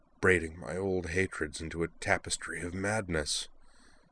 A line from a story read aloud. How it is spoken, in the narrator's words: Sionji muttered, tears streaking his face